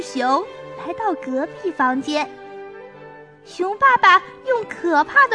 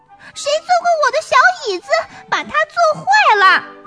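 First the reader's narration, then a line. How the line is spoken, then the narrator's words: Shrill squeaky little bear. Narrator (Chinese): 小熊，尖声尖气的叽叽叫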